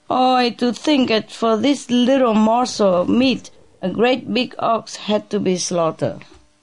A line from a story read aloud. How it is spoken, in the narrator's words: he cried